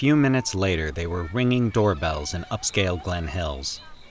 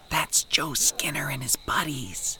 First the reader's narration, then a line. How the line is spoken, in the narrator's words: Nick whispered